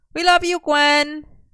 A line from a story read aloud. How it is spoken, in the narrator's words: Merlin shouted